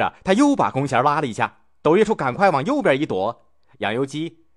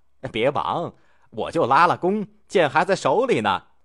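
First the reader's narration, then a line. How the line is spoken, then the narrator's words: Laughing. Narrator (Chinese): 杨由基笑道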